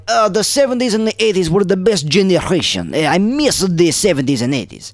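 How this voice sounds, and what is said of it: Put-on Russian-sounding accent. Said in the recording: “You said Italian, then you did a Russian accent.”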